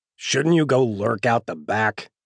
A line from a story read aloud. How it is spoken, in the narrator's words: Patterson grumbles